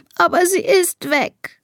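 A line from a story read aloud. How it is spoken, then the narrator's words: Sobbing. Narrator (German): schluchzt Elisa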